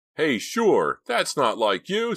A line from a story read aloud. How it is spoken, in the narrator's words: yelled